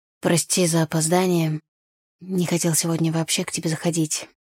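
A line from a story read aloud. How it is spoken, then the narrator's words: Hoarse. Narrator (Russian): хрипло сказал он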